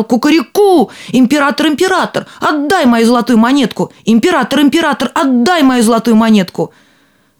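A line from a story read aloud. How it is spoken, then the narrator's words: Shouting. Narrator (Russian): опять закричал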